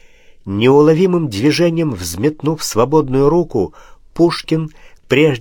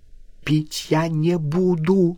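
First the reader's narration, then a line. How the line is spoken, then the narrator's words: Desperate whisper. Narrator (Russian): прошептала она с бледным, отчаянным лицом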